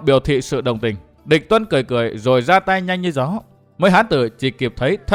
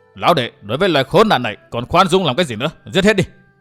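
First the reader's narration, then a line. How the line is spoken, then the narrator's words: Angry shout. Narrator (Vietnamese): Lập tức Hồi Xuân Ông nổi giận quát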